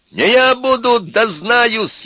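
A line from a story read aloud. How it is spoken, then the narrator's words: Shouting, voice breaking. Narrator (Russian): еще раз крикнул Костя срывающимся голосом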